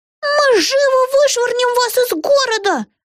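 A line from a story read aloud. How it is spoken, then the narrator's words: Squeak. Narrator (Russian): пискнула Дарси Дрим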